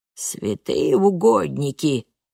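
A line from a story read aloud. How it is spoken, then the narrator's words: Grumbled. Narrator (Russian): пробурчала она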